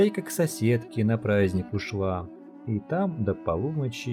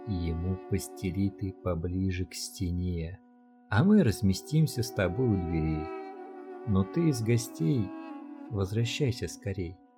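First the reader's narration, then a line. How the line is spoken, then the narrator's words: Quiet whisper. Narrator (Russian): Хозяин шепнул потихоньку жене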